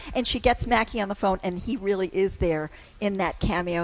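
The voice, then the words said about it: Southern accent like Scarlett O'Hara. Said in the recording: “how many times did you practice that accent driving over here today? ... Oh, it just comes naturally to me because I thought I was Scarlett.”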